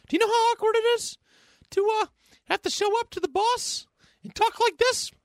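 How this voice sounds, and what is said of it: High-pitched squeaky cartoonish voice. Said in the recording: “Now my voice is stuck like this. ... You might have a singing career going there ... you could join the opera ... it worked for Mickey Mouse.”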